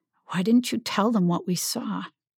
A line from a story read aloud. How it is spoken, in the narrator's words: asked quietly